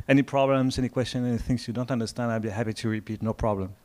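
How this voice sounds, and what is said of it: French accent. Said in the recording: “I come from France, as you can hear from the accent.”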